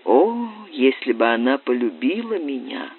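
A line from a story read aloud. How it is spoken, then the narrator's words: Quiet. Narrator (Russian): сказал он тихо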